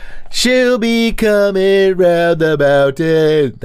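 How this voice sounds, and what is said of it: Sung Beach Boys-style impression. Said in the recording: “my Beach Boys impression ... everything's just slightly flat”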